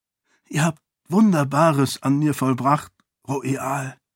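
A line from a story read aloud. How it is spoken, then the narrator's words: Whispered. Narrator (German): flüsterte er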